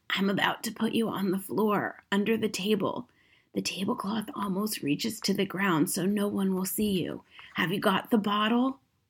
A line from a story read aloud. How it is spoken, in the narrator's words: whispered